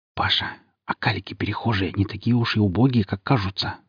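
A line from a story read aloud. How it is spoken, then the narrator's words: Whispering. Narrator (Russian): зашептал мне Сергей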